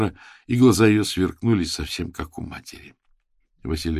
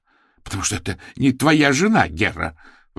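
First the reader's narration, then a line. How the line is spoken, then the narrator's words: Brother exclaiming. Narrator (Russian): воскликнул брат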